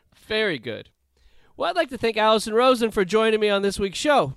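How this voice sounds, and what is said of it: Usual voice. Nothing is said of it.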